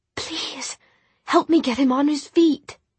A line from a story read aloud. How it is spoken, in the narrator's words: Tessa whispered